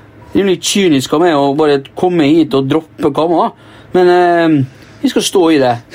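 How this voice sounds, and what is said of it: Poor imitation of Molde dialect. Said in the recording (Norwegian): “det er så dårlig! Nesten litt vondt ... Du starter Det er ikke så aller verst Molde-dialekt, og så bare dreper du den helt ... du begynner å snakke slags dialekt ... Du sier jo E istedenfor I, det er jo kardinalfeil.”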